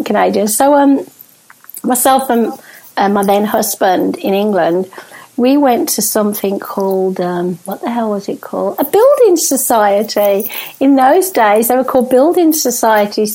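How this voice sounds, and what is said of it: British accent. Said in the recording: “I was born in the UK ... I couldn't tell by the accent ... I keep trying to talk like you, Canadian. It just doesn't work.”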